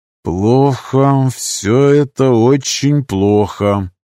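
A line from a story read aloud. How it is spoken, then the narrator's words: Through gritted teeth. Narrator (Russian): процедил сквозь зубы герцог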